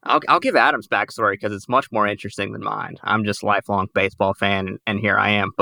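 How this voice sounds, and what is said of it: Southern American twang. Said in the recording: “my accent talking to them about Brewers baseball with a southern twang”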